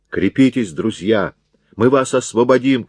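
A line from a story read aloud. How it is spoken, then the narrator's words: Shouting. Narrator (Russian): кричал Тетриний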